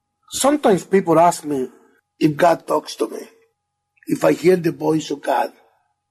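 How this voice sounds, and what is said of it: Thick foreign accent. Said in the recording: “He's got a pretty thick accent”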